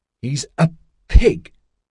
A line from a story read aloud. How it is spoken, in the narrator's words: she spat at Lion Walker